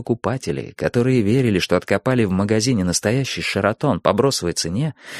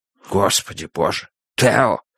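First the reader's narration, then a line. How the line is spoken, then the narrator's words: Stunned, forced out. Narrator (Russian): выдавил Хобби, ошарашенно помолчав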